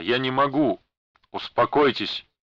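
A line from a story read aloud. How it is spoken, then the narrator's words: Sharp rebuke. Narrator (Russian): прикрикнул на него Бенкулин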